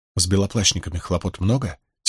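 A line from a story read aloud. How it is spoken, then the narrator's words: Quiet question. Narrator (Russian): тихонько спросила Найниф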